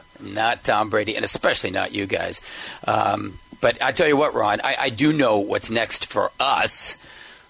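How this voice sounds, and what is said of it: Strained voice, losing his voice. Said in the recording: “if it sounds like I'm losing my voice today, guys, it's because I am”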